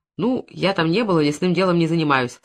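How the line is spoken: Plain. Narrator (Russian): сказал Завьялов

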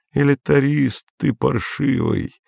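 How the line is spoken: Lazy. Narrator (Russian): лениво сказал ему Андрей

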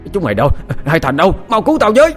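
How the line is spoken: Panicked cry for help. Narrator (Vietnamese): Hội đồng quản ... vừa chạy vừa hét lớn kêu cứu

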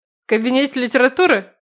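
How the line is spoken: Ironic snort. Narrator (Russian): Иронично хмыкнул мой старший

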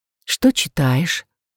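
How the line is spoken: Whispered question. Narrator (Russian): шёпотом поинтересовалась Рэйчел

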